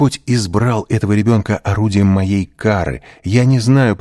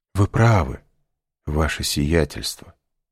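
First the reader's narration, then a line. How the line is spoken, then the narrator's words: Sigh. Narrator (Russian): вздохнул Бертуччо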